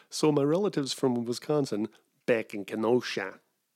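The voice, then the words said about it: Near-Midwestern American accent. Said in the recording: “that was almost a Midwestern accent”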